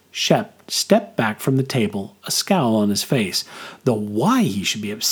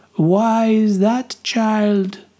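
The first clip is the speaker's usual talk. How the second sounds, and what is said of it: Fortune-teller voice with deepening accent. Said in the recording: “her accent deepening”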